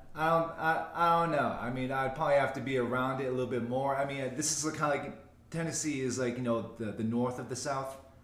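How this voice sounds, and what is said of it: Thick Boston accent, dropped R's. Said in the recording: “I can't let my accent get watered down ... it's gone thicker since I left ... All my E's and R's just disappear ... your Boston accent”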